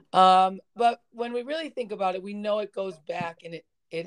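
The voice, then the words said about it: Scratchy, hoarse voice. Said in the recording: “my voice is stri- is scratchy this week and a little cough today ... spring sniffles and some field trip voices”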